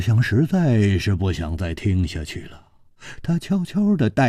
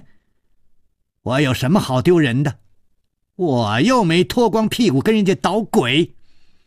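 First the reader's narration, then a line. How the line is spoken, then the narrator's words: Loud angry shout. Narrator (Chinese): 他大声地叫着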